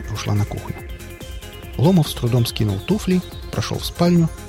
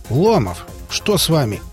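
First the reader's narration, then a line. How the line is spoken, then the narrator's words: Stern question. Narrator (Russian): строго спросила Маргарита Николаевна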